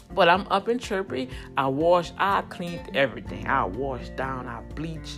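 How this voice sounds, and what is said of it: Voice weak, still recovering. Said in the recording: “as you hear, my voice is coming back”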